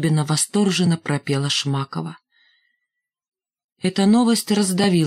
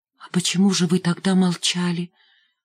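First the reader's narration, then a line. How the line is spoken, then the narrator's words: Faltering babble. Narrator (Russian): пролепетал Димка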